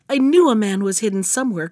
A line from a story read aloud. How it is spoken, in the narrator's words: cried the princess